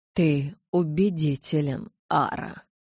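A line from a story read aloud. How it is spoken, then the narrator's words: Hollow, muffled voice. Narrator (Russian): глухо произнес Карлайл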